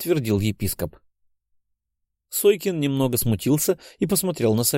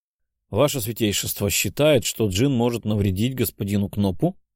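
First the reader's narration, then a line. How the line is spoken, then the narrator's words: Plain. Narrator (Russian): спросил Сойкин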